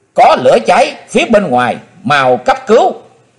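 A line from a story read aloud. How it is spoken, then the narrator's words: Shrill scream. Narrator (Vietnamese): tiếng thét lanh lảnh của Hát Phụng Hoàng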